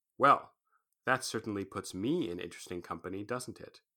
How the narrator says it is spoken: said dryly

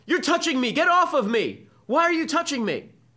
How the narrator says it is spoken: all the students begin yelling at him

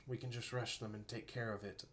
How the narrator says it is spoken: Beau whispered

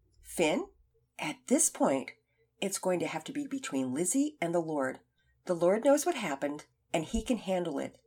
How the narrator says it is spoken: Cochran answered calmly

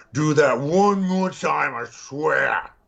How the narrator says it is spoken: he snarls

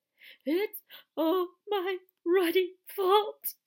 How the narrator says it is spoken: he sobbed

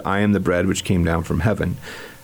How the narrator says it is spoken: The Jews then murmured at him

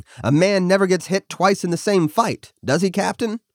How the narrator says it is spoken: yelled over the firing

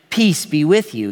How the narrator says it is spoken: he said

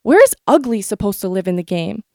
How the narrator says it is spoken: I shouted

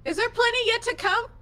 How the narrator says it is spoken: I just yell

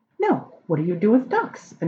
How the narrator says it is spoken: Anael said eagerly

